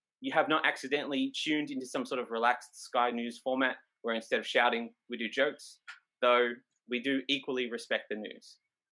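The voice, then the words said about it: Australian accent. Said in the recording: “comedy is happening in an Australian accent”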